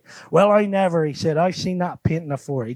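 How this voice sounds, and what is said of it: Imitated broad Wiltshire farmer accent. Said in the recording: “he got broad Wiltshire accent, and if I do it, you'll only laugh at me ... Sounds almost Gloucester or Hereford almost, doesn't it? ... That's like he was a pirate or something ... broad Wiltshire, farmer”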